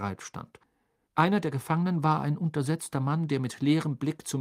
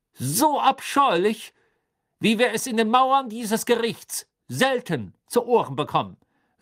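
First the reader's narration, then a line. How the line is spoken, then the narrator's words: Raised, drowning voice. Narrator (German): sagte Crouch mit erhobener Stimme, die die seines Sohnes erstickte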